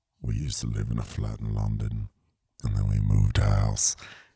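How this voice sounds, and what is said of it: Deep put-on British accent. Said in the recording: “straight up sexy, British deep voice guy”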